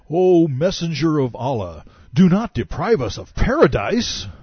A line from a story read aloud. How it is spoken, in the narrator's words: The newly minted Muslims roared